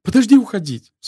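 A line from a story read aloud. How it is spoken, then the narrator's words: Pleading. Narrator (Russian): взмолилась Изабелла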